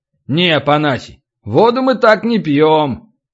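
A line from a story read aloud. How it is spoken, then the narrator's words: Cheerful laughing priests. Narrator (Russian): Жрецы были в хорошем настроении и смеялись охотно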